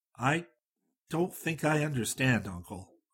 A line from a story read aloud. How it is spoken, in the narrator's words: said